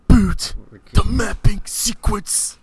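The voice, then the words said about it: Intense imitation of another person's voice. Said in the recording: “intense ... our best impersonation ... Keanu Reeves actually saying it”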